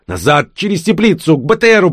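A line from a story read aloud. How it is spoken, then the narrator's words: Shouted urgent command. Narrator (Russian): прокричал кот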